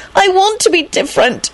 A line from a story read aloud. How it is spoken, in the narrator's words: she wailed unhappily